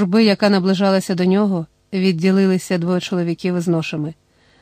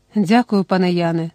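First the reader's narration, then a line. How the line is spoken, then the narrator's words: Tender. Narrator (Ukrainian): сказав ніжно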